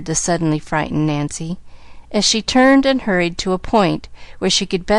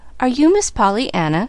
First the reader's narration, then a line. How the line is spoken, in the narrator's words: she faltered